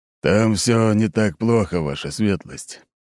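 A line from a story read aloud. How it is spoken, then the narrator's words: Still displeased tone. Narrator (Russian): все еще недовольным тоном произнес Аршавин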